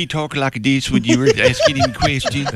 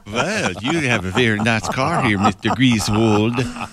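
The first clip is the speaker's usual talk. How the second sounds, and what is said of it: Put-on Swedish accent. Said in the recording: “Swedish chocolate... That was the accent I was... I thought you were going German there.”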